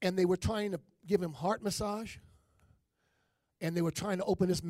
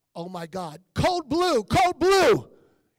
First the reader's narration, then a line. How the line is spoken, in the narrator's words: the nurses screaming